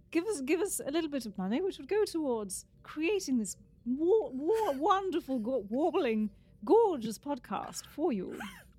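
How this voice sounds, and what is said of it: Fake British accent. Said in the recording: “She's not British. I don't know why I keep doing that... but she's got the fake British accent”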